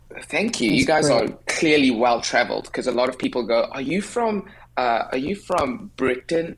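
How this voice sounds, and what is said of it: South African accent. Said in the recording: “you have an accent ... That is South African, very distinct for sure”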